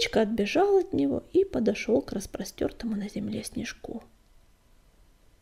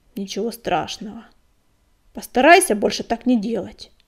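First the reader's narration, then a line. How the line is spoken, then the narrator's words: Through gritted teeth. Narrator (Russian): процедил Огнегрив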